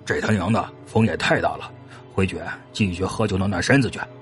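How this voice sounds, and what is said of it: Quiet muttering to himself. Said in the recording (Chinese): “小声对自己说”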